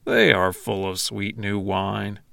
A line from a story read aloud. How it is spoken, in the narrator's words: others jeered and said